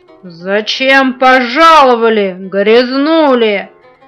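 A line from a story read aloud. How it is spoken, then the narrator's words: Thunderous question. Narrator (Russian): громовым голосом спросила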